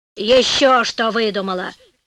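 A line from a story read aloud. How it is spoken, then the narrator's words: Grumbling old woman. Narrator (Russian): проворчала старуха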